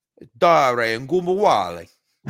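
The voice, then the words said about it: Exaggerated Italian accent. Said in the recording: “can you say Ogunbowale in the most Italian accent possible?”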